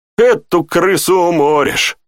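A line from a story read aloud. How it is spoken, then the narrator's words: Snorted. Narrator (Russian): хмыкнул Тьерри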